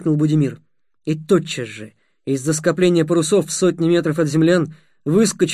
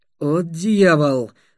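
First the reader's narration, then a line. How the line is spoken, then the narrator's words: Gloomy grumble. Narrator (Russian): мрачно буркнул Светлов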